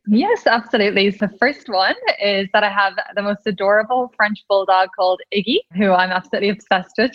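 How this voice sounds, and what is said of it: Irish accent. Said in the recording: “I'm Irish, in case anyone couldn't tell from my accent.”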